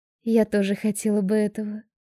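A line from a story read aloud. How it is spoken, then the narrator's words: Calm. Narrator (Russian): спокойно отвечаю ей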